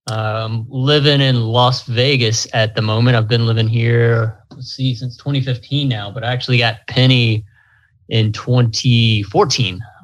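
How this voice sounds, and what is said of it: American accent. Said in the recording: “you can probably tell by my accent from the States”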